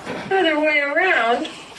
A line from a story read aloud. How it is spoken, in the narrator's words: He croaked uneasily